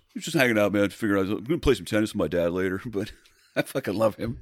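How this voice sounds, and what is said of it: Accurate imitation of another person's voice. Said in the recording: “Oh my God, that's spot it's, on. ... That's spot on. ... I can do that voice”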